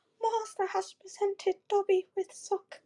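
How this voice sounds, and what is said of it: Imitates Dobby the house-elf. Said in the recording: “I should have done a Dobby impersonation ... I can do a really good one”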